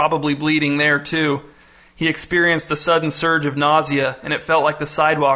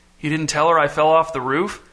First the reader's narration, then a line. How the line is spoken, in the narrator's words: Miles groaned